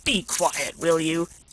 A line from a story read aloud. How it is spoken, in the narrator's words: snarled the jackal, half dead with fear